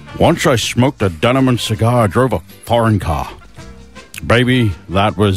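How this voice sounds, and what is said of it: Bad Sean Connery impression. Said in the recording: “we were doing it in a Sean Connery accent. ... I'll try my best Sean Connery. ... It's pretty bad”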